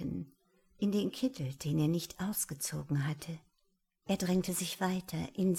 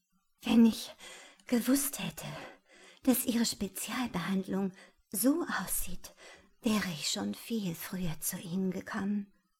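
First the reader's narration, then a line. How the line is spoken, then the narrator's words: Sighing. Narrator (German): sagte Alan seufzend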